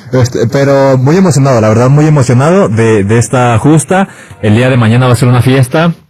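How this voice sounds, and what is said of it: Announcer-like radio voice. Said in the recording (Spanish): “con esa voz ... Tiene voz de locutor.”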